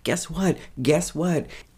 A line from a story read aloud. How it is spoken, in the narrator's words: Mary comes running home and starts yelling